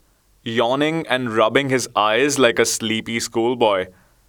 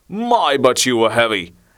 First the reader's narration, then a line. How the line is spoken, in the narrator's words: exclaimed the fat one